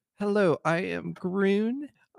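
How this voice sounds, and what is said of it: Weird, cute character voice. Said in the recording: “My voice is really weird today. I don't know where that voice came from. ... It's so cute.”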